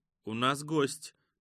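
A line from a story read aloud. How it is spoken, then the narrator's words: Dry announcement. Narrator (Russian): также сухо сообщил хранитель коттеджа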